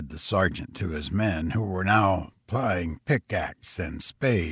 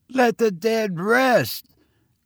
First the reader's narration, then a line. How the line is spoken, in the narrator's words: cried the landlord with a trembling voice